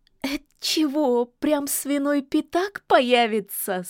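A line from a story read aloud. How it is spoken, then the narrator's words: Laughing. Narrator (Russian): смеялась Василиса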